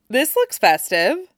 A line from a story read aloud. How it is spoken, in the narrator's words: Tim greeted cheerfully